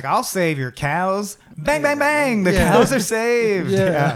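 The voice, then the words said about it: Drawling imitation of another person's voice. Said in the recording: “that impression. That famously impersonated man with a very specific drawl”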